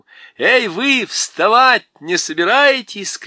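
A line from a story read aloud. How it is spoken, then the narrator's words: Shouting. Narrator (Russian): крикнула она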